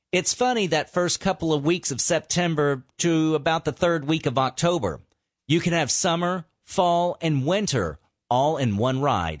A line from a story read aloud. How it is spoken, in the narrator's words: he said